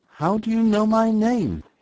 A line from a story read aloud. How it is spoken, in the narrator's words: He gasped